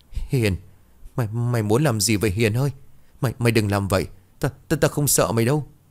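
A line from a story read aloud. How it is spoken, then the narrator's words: Trembling stammer. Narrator (Vietnamese): Thằng Tào cả người run rẩy, lắp bắp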